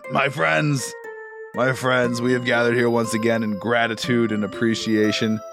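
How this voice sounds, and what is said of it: Deep booming character voice. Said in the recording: “This deep voice rolls over the crowd.”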